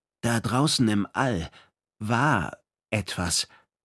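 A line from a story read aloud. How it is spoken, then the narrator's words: Hesitant. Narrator (German): sagte Perihan Leko zögernd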